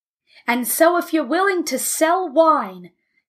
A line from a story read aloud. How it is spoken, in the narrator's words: yelled Abe